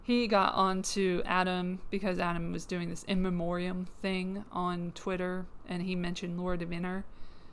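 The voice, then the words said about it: Strained, failing voice. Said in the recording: “I'm losing my voice apparently.”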